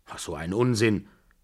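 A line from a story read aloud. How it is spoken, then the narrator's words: Calling after. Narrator (German): rief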